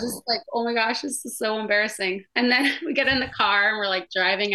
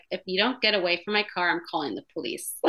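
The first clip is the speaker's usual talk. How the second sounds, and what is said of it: Deadpan flat delivery. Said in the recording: “Like totally like deadpan.”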